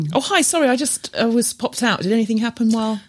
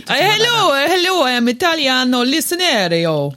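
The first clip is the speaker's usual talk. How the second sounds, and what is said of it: Mock Italian accent. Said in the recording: “Italian listeners weigh in... where did you buy that accent from?”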